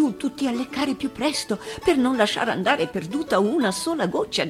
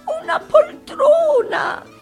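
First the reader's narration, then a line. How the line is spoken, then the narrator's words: Old woman pleading. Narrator (Italian): implorava una vecchiettina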